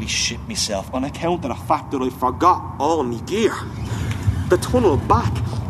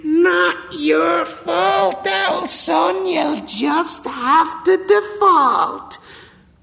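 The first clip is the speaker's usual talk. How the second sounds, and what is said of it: Small inner demon voice. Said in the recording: “me little demon voice”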